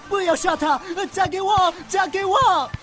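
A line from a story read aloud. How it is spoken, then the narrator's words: Shouting. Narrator (Chinese): 王子喊道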